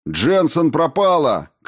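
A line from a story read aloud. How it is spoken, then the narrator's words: Shout. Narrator (Russian): крикнул он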